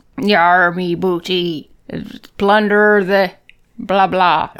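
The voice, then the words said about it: Put-on pirate accent. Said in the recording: “I think you can get it if you do a pirate accent.”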